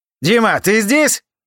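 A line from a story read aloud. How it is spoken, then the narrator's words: Shouting. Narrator (Russian): кричал Джереми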